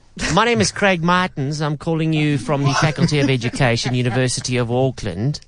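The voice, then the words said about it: Put-on New Zealand accent, sounds Australian. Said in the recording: “it kind of leans more to Australian than New Zealand ... rate the accent”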